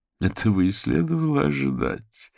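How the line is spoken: Moan. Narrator (Russian): простонала Вера

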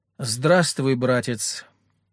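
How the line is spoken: Cold. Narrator (Russian): холодно сказала Екатерина

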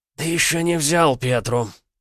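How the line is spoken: Hoarse rasp. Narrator (Russian): прохрипел Роман

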